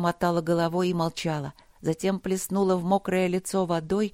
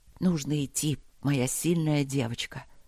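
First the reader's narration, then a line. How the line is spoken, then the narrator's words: Whispered into hair. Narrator (Russian): шепнул Макс ей в макушку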